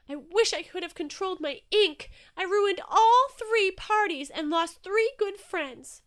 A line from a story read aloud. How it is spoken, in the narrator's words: cried Inky, tears stinging his eyes